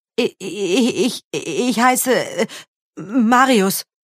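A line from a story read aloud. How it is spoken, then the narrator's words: Frightened boy stammering. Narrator (German): stammelte der Junge erschrocken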